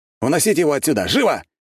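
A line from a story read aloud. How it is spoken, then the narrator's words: Shout. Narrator (Russian): крикнул я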